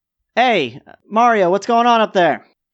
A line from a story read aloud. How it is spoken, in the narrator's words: the kid Jade yell